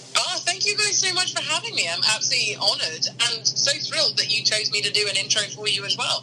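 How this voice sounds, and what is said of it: English accent. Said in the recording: “You sound like you have more of a distinguished accent from the land across the pond ... My accent is English”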